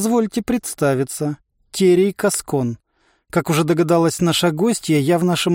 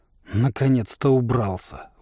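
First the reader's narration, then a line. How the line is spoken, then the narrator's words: Grumbling. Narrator (Russian): буркнул Торвальд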